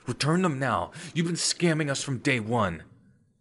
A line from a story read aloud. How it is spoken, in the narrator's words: shouted